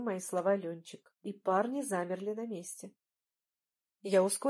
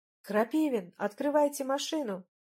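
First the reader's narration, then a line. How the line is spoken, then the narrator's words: Yell. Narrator (Russian): заорала я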